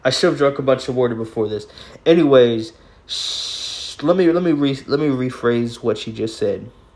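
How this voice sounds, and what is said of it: Hoarse, failing voice with stuttering. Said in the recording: “I'm stuttering a lot. ... I'm losing my voice.”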